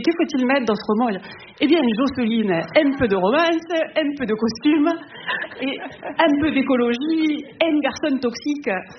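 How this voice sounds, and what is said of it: Put-on southern French accent, Maïté. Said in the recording (French): “voilà l'accent du sud.”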